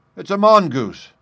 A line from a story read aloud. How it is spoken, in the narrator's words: I cried